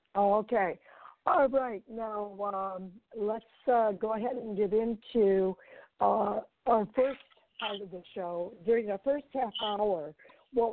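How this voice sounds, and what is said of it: Slightly strained, sore-throat voice. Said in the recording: “I've got a little bit of a sore throat that's kind of lingering here... every once in a while, my voice does give out on me”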